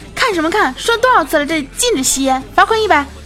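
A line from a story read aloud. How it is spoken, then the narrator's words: Shouting. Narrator (Chinese): 她就喊说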